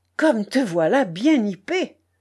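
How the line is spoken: Exclaimed with a broad smile. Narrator (French): s'écria enfin le paysan en souriant largement

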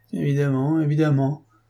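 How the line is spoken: Dazed servant moaning. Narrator (French): gémit le domestique, ahuri

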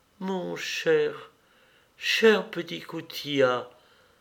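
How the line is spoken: Murmured. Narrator (French): murmura-t-elle

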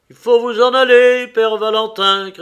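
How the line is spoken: Shouting. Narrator (French): criai-je

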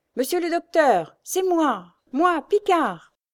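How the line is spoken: Shouting through door gap. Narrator (French): s'écria-t-il par l'entrebâillement de la porte

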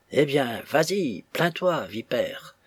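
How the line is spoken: Murmured. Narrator (French): murmure Nya Nya

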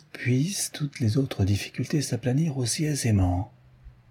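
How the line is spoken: Murmured. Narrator (French): murmura Sherlock Holmes

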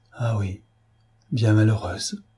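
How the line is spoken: Murmured. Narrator (French): murmura-t-elle

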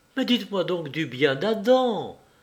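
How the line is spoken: Exclaimed. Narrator (French): s'écria Clémentine

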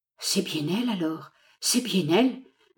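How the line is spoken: Former servant murmuring. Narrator (French): murmura l'ancien domestique

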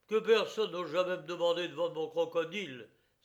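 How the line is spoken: Furious exclamation. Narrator (French): s'écria-t-il furieusement

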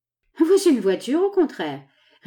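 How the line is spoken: Amused laughing reply. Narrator (French): répondit Harris Burnett, en riant de la plaisanterie de son ami

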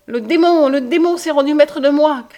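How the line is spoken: Crying out sobbing. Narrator (French): criait-il en sanglotant

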